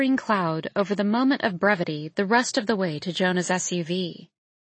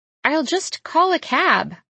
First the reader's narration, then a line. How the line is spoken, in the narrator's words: I holler through the driver's side window